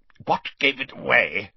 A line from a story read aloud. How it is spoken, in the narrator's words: he grunted